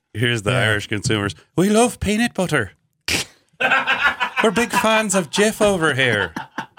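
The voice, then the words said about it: Irish accent like Lucky Charms leprechaun. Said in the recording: “That's a pretty good accent. ... It's the guy from Lucky Charms is what you're doing. ... it's a great impression ... You sound like a leprechaun.”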